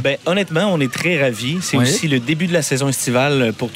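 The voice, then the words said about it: Quebec French accent. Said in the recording (French): “je me croirais à Québec. ... avec votre accent et personnellement, je suis fan.”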